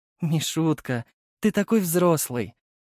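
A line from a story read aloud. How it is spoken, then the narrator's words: Affectionate mother. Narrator (Russian): ласково сказала мама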